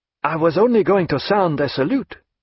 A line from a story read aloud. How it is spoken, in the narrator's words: he said in a startled voice